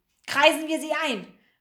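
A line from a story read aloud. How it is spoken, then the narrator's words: Call. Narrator (German): rief der eine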